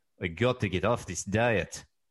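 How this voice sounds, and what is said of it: Put-on Russian accent. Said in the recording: “This will be Russian Garfield... I need to work on my Russian accent... It sounded more Slovakian.”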